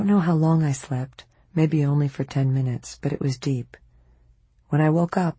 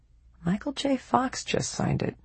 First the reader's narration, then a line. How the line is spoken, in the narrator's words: I murmured